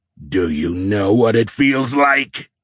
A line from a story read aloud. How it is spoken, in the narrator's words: Nick roared again, demanding an answer